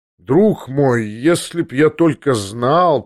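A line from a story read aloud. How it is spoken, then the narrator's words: Drawl. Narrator (Russian): протянул Версилов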